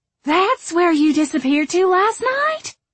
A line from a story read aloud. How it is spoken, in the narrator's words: she cried